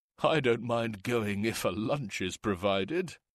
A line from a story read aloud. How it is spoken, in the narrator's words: one of the men chuckled